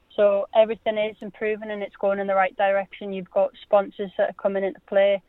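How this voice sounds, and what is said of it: Durham English accent. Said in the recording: “you can obviously tell by my accent that I'm from Durham”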